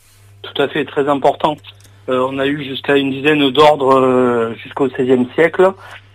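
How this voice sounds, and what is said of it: Slight Perpignan southern French accent. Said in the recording (French): “quand on entend parler de Perpignan avec un petit accent”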